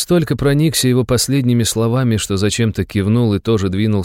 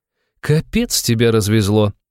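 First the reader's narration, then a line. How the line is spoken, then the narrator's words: Laughing, young woman. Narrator (Russian): рассмеялась девушка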